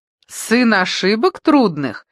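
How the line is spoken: Laughing. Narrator (Russian): засмеялся Машков

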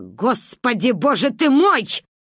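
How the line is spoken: Loud. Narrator (Russian): громко сказала

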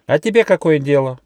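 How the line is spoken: Grumbling little mouse. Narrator (Russian): проворчал мышонок

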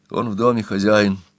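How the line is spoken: Gloomy reply. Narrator (Russian): мрачно ответила

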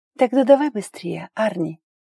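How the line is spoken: Hoarse whisper. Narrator (Russian): хрипло зашептала

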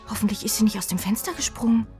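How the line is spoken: Anxious. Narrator (German): sagt Jenny ängstlich

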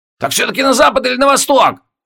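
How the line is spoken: Irritated shout. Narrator (Russian): раздраженно выкрикнул

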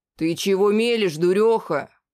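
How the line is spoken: Shouting. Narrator (Russian): закричал на нее Всемил

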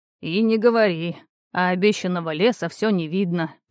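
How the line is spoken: Grumble. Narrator (Russian): проворчал Геатрос Ринеус

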